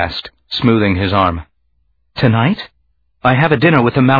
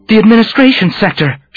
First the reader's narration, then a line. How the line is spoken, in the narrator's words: she said, her voice taut